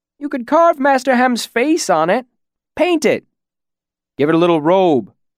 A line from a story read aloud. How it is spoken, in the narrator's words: Other voices called out